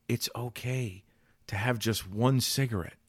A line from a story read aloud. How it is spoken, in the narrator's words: that little voice that whispers in your ear